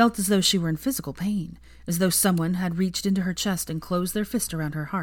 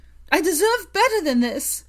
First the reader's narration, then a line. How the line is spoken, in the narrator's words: she screamed, breaking off with a harsh sob